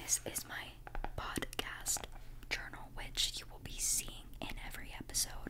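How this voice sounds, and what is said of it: Whispered ASMR speech. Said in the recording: “why am I whispering, ... why is it going to be a whispered, you know, ramble”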